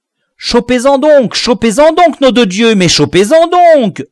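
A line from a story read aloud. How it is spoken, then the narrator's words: Distant dog roaring. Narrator (French): rugissait le braque de loin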